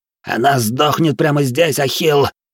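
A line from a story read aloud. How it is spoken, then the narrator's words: Hissed in breaking voice. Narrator (Russian): срывающимся голосом прошипел бандит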